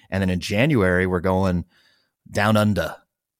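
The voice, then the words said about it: Poor put-on Australian accent. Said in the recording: “That was a very terrible Australian accent... was that a Kiwi accent? Did I do a Tassie accent? I don't know. Maybe a Bogan version of an Australian accent.”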